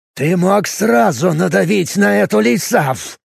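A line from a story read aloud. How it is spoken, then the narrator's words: Growl. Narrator (Russian): прорычал он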